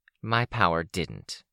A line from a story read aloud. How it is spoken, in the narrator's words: she said, her voice tense